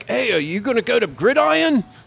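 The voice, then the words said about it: Bad put-on Australian accent. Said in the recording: “I met a bunch of Australian guys ... that was a bad accent”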